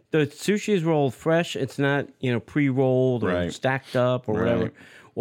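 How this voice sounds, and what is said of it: New Jersey accent. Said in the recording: “You got that Jersey accent.”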